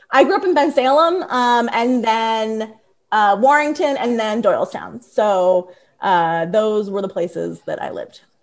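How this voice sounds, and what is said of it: Philadelphia accent. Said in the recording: “my Philly accent”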